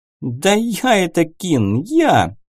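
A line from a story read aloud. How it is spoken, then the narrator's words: Pleased laugh. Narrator (Russian): довольно рассмеялась Сайла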